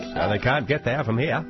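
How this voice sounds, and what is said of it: Put-on Maine accent. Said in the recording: “we just wanted a chance to do a Maine accent.”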